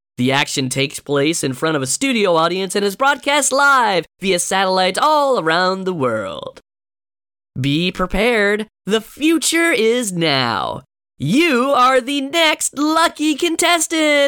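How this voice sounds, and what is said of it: Exaggerated game show announcer voice. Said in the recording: “probably the worst game show voice I've ever done”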